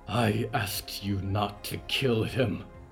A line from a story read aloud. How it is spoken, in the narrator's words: the Countess breathed